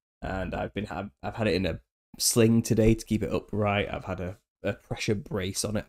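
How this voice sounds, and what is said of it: Slightly raspy, hoarse voice. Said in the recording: “I think it's made my throat a little bit dodgy. I sound a little bit raspy, don't I?”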